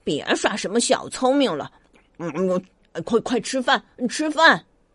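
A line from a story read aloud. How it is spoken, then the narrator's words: Mother mumbling. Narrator (Chinese): 妈妈也嘟嘟囔囔的说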